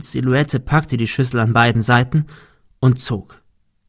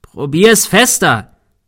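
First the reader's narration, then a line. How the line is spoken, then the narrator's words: Shouted. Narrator (German): schrie Thomas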